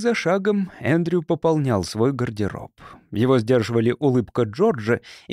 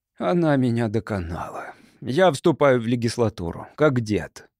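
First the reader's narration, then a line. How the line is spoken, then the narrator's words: Glum. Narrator (Russian): Джордж уныло произнес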